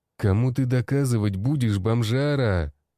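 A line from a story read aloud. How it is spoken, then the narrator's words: Growling. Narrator (Russian): прорычал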